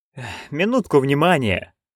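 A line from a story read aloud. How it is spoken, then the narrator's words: Tired. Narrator (Russian): устало выговорил Том Джон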